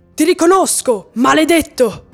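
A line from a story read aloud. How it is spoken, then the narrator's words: Furious shout. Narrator (Italian): alzandosi furioso, Nebo gridò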